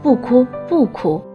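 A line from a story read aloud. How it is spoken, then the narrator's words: Habitual soothing. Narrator (Chinese): 他们往往会习惯性地说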